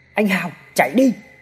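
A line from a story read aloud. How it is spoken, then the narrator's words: Startled shout. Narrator (Vietnamese): Hào cả kinh hét lên một cái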